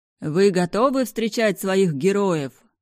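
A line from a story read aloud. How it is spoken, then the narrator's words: Host booming into microphone. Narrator (Russian): прогремел ведущий в микрофон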